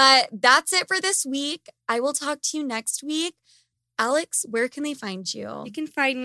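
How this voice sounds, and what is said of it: Usual voice. Nothing is said of it.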